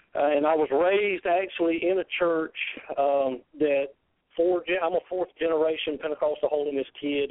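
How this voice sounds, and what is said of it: Southern US drawl. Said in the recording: “I'm sure all the listeners can tell by my southern drawl, I'm from the South.”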